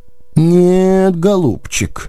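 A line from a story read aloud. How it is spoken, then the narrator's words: Sighed. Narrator (Russian): вздохнул Кнапс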